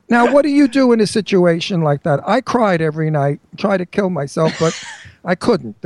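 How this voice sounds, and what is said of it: Brooklyn accent. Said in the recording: “I'm from Brooklyn. Sure, I have an accent.”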